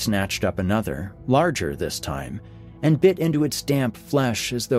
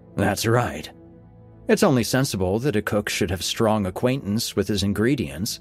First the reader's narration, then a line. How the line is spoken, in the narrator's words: said Nicholas